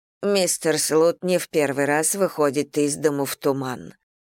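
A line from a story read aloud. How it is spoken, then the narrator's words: Remarked gloomily. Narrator (Russian): мрачно заметила миссис Бантинг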